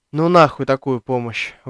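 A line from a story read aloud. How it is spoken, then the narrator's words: Exhaled. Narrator (Russian): выдохнул я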